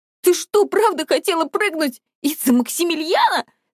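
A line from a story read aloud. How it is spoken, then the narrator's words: Laughing through tears. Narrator (Russian): Смеялась я тоже сквозь слезы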